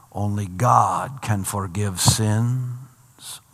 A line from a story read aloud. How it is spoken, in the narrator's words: mutter the Pharisees